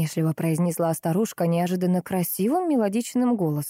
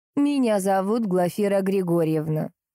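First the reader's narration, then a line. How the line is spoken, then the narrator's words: Plain. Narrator (Russian): сказала соседка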